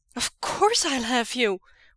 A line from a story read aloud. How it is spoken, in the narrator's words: Wei Ying cries